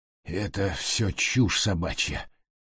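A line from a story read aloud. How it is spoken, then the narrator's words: Hoarse. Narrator (Russian): прохрипел Джордж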